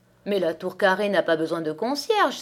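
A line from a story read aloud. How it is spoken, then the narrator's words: Astounded exclamation. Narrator (French): s'écria Madame Edith, dont l'ahurissement était sans bornes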